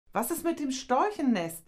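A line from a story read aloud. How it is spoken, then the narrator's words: Calling back. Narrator (German): rief Mascha zurück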